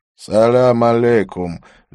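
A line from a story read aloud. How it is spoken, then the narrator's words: Lazy. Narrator (Russian): лениво промолвил он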